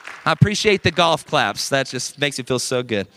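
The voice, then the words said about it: Sarcastic delivery. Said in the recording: “That was sarcasm, if you couldn't tell.”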